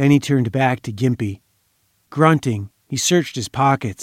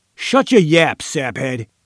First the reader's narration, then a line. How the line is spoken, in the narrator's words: Diller roared